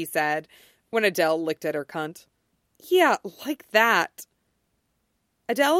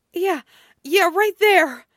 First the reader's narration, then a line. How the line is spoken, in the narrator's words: Becky said between gasps